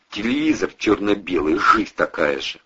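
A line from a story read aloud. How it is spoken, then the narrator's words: Mutter. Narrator (Russian): пробормотал Бандура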